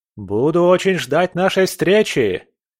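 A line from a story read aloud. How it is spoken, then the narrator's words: Shouted. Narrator (Russian): крикнул ей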